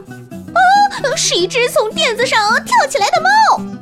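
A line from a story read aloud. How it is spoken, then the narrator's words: Shrieking. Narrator (Chinese): 城里老鼠尖叫道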